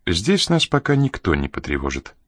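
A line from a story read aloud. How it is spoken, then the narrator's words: Calm woman speaking. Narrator (Russian): спокойно проговорила она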